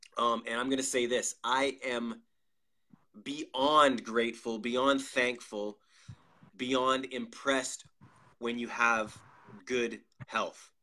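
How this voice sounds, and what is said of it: Slightly nasal voice. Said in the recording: “You can hear it in my voice. I'm a little bit nasally.”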